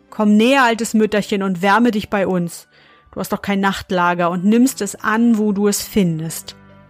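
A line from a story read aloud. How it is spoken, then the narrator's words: Called out. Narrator (German): rief ihr zu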